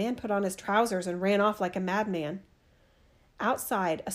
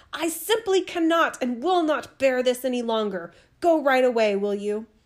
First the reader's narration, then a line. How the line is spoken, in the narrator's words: screamed